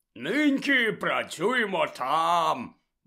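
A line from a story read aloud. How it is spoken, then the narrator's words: Cheerfully announced. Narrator (Ukrainian): весело повідомив Гегрід учням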